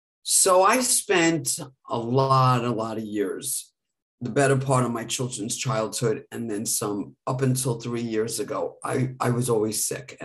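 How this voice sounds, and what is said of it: Hoarse, strained voice. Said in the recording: “As you can hear, I tend to get laryngitis”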